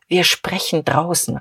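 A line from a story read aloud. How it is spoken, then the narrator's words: Low murmur. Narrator (German): raunte zu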